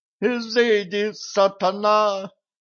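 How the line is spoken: Desperate exclamation. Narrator (Russian): в отчаянии воскликнул дворник

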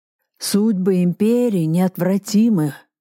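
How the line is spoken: Hoarse speech. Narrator (Russian): хрипло сказал он

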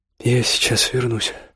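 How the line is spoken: Apologetic mumble. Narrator (Russian): пробормотала она, будто оправдываясь

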